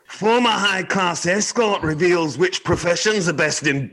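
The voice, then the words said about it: Poor attempt at Scottish accent. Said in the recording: “I'd like you to try a Scottish accent ... Oh, God, I'm really bad at Scottish accents ... That's fucking terrible ... I can't do Scottish.”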